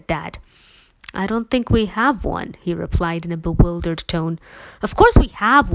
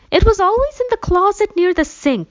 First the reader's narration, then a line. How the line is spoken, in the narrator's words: she exclaimed